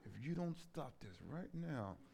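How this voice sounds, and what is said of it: Stern parental whisper. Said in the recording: “you're whispering in a key that only your children can hear.”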